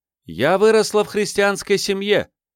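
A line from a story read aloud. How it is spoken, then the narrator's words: Loud. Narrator (Russian): громко сказала женщина из хора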